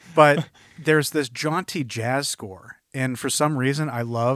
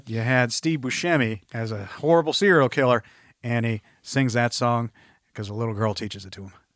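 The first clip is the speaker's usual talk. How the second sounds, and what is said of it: Put-on Texas accent. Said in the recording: “in a Texas accent”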